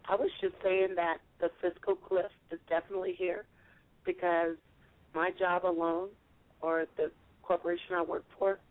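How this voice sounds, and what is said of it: Hoarse, fading voice. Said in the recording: “I've been ill and I'm losing my voice today.”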